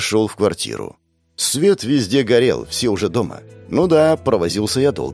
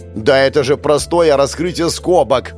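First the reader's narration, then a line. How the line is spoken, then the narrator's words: Yelling. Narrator (Russian): Орала Лиза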